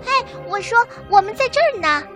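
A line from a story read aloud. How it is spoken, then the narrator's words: Loud shout. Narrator (Chinese): 小白兔看到维尼之后大喊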